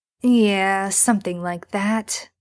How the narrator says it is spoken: Sam says sullenly

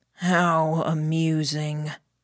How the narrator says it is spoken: Catcher said, in the least amused tone I'd heard from him today, his voice echoing to us from the far end of the hallway

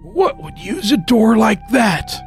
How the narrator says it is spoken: I whispered

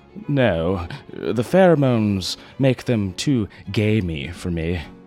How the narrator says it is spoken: Worthington sighed

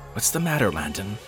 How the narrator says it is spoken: I asked anxiously

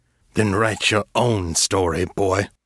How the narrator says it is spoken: Silas growled

